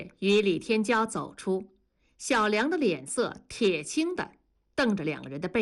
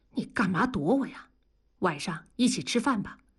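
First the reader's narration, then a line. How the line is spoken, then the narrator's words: Low voice. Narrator (Chinese): 小梁的声音很低，他说道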